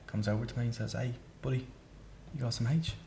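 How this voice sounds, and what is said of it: Mysterious shifting mixed accent. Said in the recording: “You got a really mysterious accent... You put on different accents”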